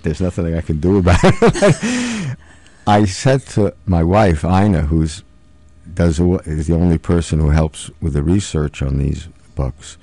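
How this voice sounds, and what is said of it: New York accent. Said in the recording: “I'm from New York. You can perhaps tell that from my accent.”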